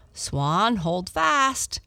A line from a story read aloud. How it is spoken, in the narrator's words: called out